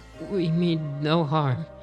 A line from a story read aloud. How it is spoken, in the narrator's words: he stammered